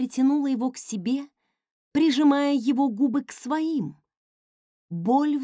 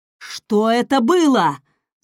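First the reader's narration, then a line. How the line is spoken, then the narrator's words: Roaring. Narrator (Russian): взревел он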